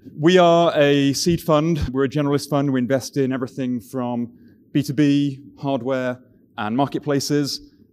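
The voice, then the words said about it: British accent. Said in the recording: “as you can tell from the accent, I'm from even further east. From the UK originally”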